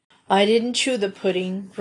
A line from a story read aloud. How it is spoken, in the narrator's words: groaned Uncle Roger